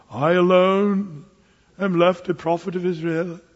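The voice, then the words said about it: Put-on British accent. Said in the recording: “I don't know where he got a British accent, but actually, I don't know, it just sounds kind of British”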